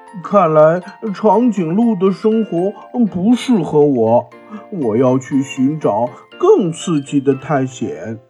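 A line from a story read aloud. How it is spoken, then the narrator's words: Reflective sigh. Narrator (Chinese): 小猪感叹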